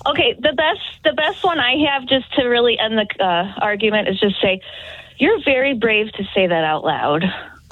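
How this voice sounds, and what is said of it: Out of breath, breathy speech. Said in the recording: “I want to know why you're out of breath”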